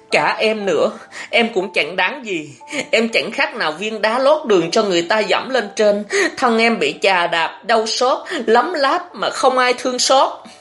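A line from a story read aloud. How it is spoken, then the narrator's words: Tearful, trembling. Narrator (Vietnamese): Nước mắt lưng tròng, Thọ Hương run run nói với An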